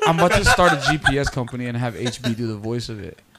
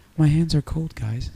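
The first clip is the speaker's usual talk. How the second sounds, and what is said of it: Very soft voice imitating another person. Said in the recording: “He's just so soft.”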